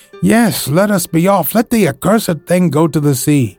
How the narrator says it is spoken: Several voices cried together

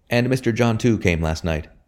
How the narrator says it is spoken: he said

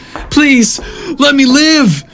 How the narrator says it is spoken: Mason wailed once more in desperation

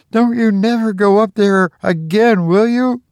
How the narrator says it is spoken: He pleaded

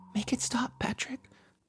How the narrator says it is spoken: Josie whispered

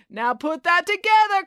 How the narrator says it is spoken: cried Brad

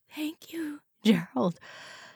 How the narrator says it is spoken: Joyce murmured weakly

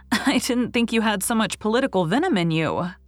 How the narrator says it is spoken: laughed Anne, who was not so much excited over the tidings

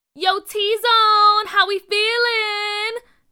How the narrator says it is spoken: McKinley yelled

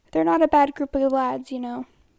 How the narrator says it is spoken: he chuckles

